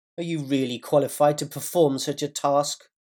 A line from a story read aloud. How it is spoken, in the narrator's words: The Eastern Sector avatar spat his question